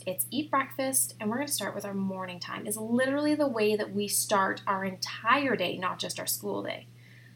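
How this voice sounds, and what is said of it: Very fast, breathless speech. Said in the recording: “I'm talking so fast that I'm like out of breath”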